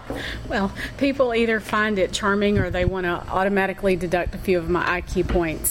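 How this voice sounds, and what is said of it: Speaks with a distinctive accent. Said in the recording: “I love your accent. So I love to just listen to you talk.”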